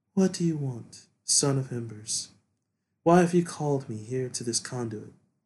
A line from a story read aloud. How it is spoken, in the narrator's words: she asks in a mystic voice